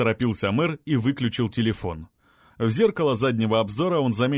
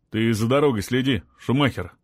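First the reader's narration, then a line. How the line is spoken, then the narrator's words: Grunted. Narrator (Russian): буркнул Олег Викторович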